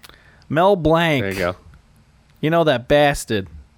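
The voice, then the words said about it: Put-on Boston accent. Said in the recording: “I'm just gonna throw my Boston accent in there and just say blank.”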